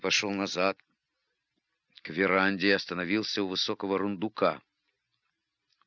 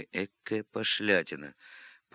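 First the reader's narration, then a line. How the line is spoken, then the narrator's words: Muttered. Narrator (Russian): пробормотал он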